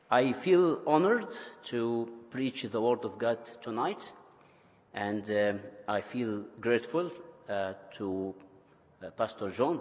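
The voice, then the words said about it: Non-native English accent. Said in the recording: “you will need to make a great attention to my language and to my accent”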